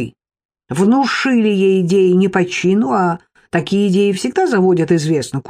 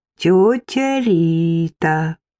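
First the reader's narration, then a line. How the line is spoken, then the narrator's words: Drawn-out address. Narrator (Russian): протянула я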